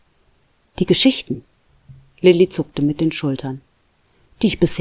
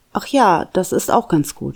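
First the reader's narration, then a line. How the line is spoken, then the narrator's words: Plain. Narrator (German): sagte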